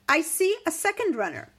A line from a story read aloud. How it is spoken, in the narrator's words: he called out to the gatekeeper